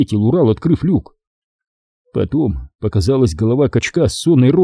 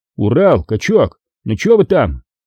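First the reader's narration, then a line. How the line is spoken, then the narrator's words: Shouted. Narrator (Russian): крикнул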